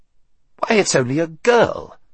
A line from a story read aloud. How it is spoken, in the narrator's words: he exclaimed